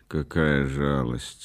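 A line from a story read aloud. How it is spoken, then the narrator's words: Calmly said. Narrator (Russian): спокойно сказал Рейзнер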